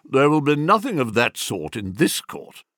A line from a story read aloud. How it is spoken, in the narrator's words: quickly dismissed the idea with a blunt